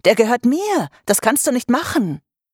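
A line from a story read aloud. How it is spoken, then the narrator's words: Startled shout. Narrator (German): rief Vivian erschrocken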